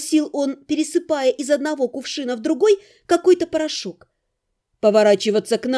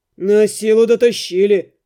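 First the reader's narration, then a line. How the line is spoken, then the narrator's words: Grumbling. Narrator (Russian): проворчал Рыжебородый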